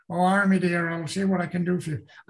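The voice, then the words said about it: Put-on Cornish countryside accent. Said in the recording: “the countryside in England where they talk the Cornishman talk ... you had a talent for accents”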